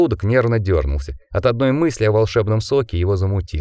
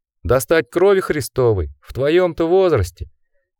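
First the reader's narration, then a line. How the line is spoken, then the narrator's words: Blind man laughing. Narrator (Russian): Слепец рассмеялся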